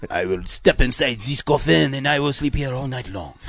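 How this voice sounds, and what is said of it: Bad fake French accent. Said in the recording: “American who does a fake French accent ... I don't think he knows what French sounds like.”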